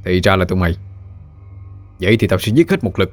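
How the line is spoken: Harsh, gritted voice. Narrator (Vietnamese): Hắn gằn giọng nói

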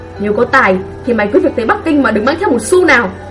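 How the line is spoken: Angry father. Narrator (Vietnamese): câu nói giận dữ của bố

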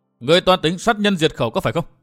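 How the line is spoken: Loud shout. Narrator (Vietnamese): miệng quát lớn

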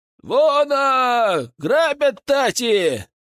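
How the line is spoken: Distant shouting. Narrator (Russian): закричали впереди

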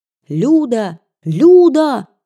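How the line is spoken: Shouting. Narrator (Russian): кричала вбежавшая в зал Кира

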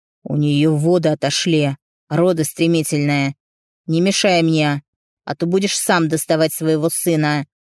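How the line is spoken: Growled. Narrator (Russian): Прорычал он

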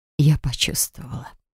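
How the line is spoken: Whisper. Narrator (Russian): прошептала

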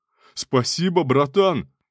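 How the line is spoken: Shouted. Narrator (Russian): крикнул

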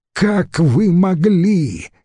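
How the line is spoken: Shout. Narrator (Russian): крикнул

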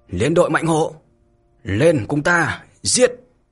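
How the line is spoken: Thunderous battle roar. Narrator (Vietnamese): Đôn Tử ầm ầm đáp lời, lớn tiếng mà thét

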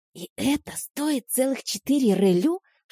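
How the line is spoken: Whispered question. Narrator (Russian): шепотом спросила я у подруги

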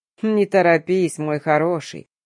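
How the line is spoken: Snarling grin. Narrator (Russian): оскалился этот шакал

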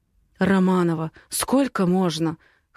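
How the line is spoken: Hoarse. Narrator (Russian): хрипит он

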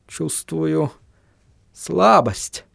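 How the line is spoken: Mumbling. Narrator (Russian): пробормотал Вильям

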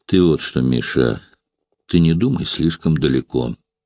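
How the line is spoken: Hollow, hostile. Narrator (Russian): ответил хозяин, и голос его прозвучал глухо и враждебно

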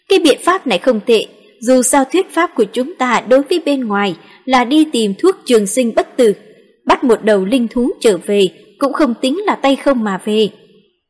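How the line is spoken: Laughing. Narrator (Vietnamese): Sương Bình công chúa bật cười

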